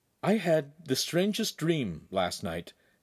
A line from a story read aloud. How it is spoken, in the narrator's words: Hansum said quietly to the two others